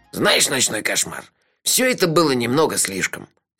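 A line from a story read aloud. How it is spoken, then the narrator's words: Angry. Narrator (Russian): сердито сказал Мелифара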